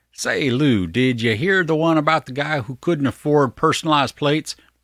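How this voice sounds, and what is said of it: Put-on Southern-sounding accent. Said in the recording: “that wrong accent there ... Was that like, you got a purty mouth? ... I can't do the accent ... It went Southern there, and that's not Southern.”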